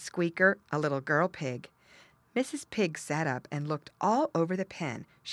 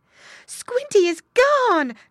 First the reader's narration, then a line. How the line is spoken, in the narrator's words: cried Mrs